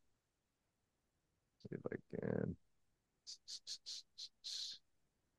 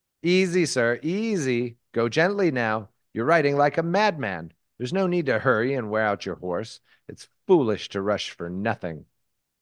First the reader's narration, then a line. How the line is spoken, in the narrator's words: she shouted to him